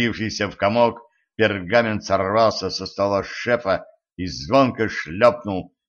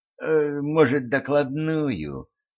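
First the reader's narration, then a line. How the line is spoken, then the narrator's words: Timid question. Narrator (Russian): робко спросил Асмодей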